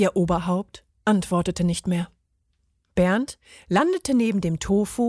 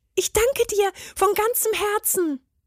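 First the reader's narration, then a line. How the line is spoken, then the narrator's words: Called out. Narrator (German): rief er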